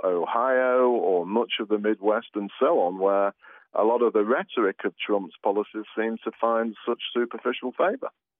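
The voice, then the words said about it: British accent. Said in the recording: “you're from Britain. We can all tell by that accent.”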